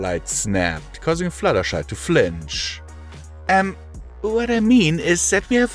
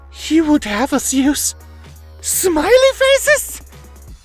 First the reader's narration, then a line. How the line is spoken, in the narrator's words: Twilight gasped